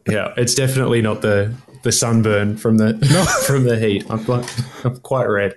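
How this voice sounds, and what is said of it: Australian accent. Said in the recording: “That beautiful Aussie accent”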